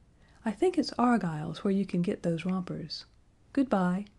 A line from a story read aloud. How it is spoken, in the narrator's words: said Roxanne with an effort, yet her voice was still gentle